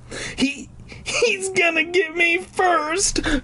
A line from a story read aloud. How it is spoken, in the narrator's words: Clark cried